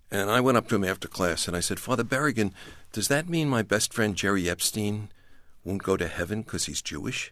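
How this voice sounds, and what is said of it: Brooklyn accent. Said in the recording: “as you can tell from my accent, Brooklyn”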